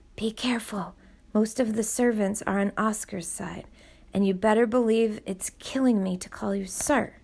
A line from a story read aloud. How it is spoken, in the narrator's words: Nina ... whispered in his ear